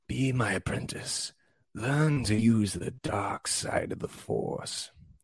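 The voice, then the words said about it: Poor Palpatine character voice impression. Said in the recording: “Let me say that in Palpatine voice. ... That was a terrible impression, but it was on the spot.”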